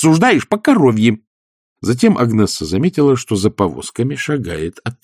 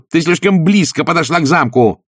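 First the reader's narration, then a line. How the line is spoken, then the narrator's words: Harsh bark. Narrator (Russian): рявкнула Пердита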